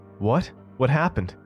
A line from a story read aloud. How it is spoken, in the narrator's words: yelped